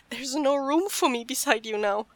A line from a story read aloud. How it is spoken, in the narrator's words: he cries